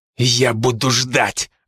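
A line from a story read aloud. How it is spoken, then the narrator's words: Growled. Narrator (Russian): рыкнул Студилин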